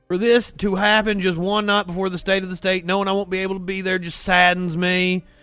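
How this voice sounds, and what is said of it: Imitates another person's voice. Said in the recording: “I'm doing a pretty good impression of him”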